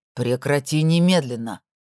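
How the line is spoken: Sharp growl. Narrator (Russian): рыкнул

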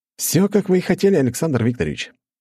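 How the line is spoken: Sudden smiling tone. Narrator (Russian): внезапно улыбнулся Разумовский

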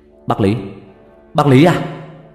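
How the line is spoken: Shout. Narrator (Vietnamese): Long hét lên

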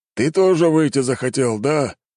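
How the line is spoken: Sighing father. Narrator (Russian): вздохнул отец

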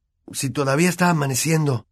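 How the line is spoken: Hoarse remark. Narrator (Spanish): observó Harry con voz ronca

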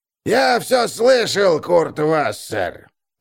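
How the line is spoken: Hoarse strained voice. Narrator (Russian): раздался хриплый сорванный голос из-за соседнего стола

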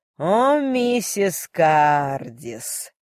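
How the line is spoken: Relishing admiral's drawl. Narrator (Russian): Почти с наслаждением протянул адмирал

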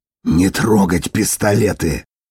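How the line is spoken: Sharp warning hiss. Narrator (Russian): прошипел Дитер, увидев, что кто-то потянулся за оружием

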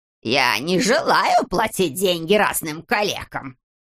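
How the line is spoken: Repeated in nasty squeaky voice. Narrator (Russian): твердил он своим противным пискливым голосом

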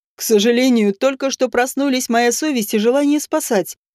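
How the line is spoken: Mocking ghost. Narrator (Russian): насмешливо сообщил призрак

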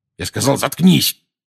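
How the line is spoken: Bark. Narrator (Russian): рявкнул Дадли

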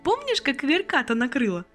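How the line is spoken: Laughing. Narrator (Russian): засмеялась Анжела

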